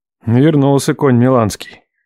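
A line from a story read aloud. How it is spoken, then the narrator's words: Grumbled. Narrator (Russian): пробурчал Лев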